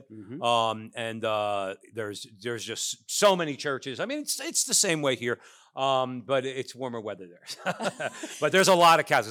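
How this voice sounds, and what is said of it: New Jersey accent. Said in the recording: “Does your accent give you away? ... oh, you're from New York? No, from New Jersey.”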